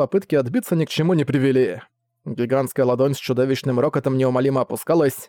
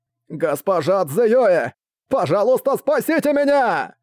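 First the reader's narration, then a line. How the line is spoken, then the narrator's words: Desperate scream. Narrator (Russian): тот в отчаянии закричал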